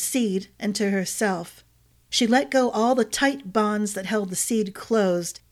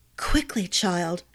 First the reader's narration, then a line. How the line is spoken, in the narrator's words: Glynna whispered